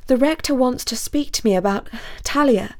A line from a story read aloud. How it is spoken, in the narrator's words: gasped Basil